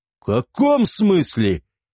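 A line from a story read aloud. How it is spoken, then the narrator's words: Exclamation. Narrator (Russian): воскликнул Эгиет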